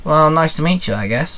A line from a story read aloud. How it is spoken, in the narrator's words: Sam sighed